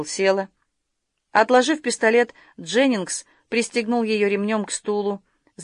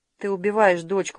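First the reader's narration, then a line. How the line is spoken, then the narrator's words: Mutter. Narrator (Russian): пробормотала Шерил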